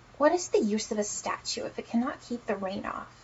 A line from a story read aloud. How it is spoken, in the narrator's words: he said